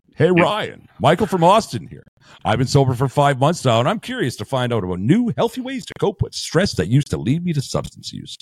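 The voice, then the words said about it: Put-on radio announcer voice. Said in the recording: “radio voice”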